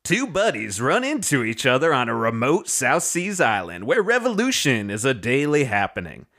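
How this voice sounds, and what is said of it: Reads in a put-on character voice. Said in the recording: “I'm going to do it in my Frank doing a voice.”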